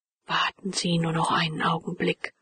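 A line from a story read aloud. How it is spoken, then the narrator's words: Respectful and quiet. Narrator (German): sagte ehrerbietig und leise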